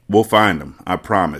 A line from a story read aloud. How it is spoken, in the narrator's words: she said